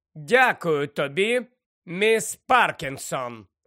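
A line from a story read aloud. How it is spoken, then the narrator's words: Cold curt remark. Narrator (Ukrainian): холодно кинула професорка МакГонагал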